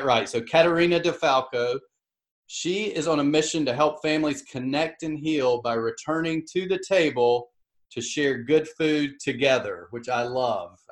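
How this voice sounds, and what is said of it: Strong Southern US accent. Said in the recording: “I sometimes say them in such a southern accent that people don't even understand what I'm saying”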